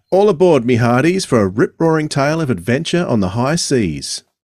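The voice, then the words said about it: Pirate accent over Australian voice. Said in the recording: “do I have to do it in the pirate accent? ... Doesn't sound so good with an Australian accent”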